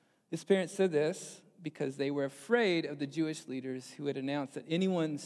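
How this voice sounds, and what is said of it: Usual voice. Nothing is said of it.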